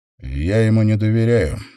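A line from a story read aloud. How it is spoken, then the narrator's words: Forced-out words. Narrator (Russian): выдавил Сэм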